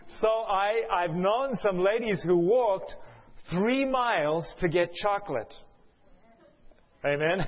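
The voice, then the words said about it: South African accent. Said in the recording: “the one campus I used to live at in South Africa. That's where my accent is from.”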